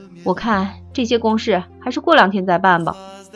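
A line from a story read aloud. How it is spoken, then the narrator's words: Long sigh. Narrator (Chinese): 方明慧长叹一声……说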